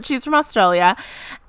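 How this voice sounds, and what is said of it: Poor put-on Australian accent. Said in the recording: “Oh, that was not a good Australian accent. Don't copy that.”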